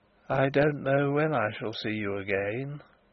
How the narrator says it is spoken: he said, faintly, almost listlessly

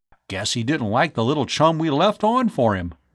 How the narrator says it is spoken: Bud said with a chuckle

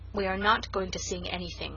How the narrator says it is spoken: said the Story Girl coldly

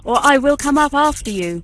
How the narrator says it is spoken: shouted Bluebeard

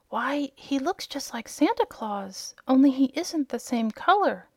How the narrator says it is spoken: whispered Dorothy to her friend

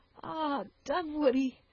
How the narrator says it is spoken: added the sobbing girl

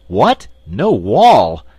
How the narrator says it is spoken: exclaimed the wizard

